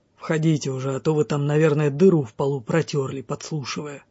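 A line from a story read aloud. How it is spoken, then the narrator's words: Smirking grumble. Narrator (Russian): усмехаясь, проворчал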